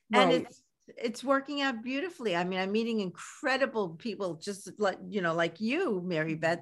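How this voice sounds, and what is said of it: Speaks with a distinctive regional accent. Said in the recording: “your accent is wonderful ... That's your special accent.”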